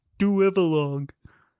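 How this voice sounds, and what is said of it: Imitates another person's voice. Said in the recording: “my Fred Wolf impression ... It's Tim's impression. The guy from Howard Stern”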